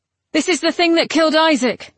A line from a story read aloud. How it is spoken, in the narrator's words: said Gideon urgently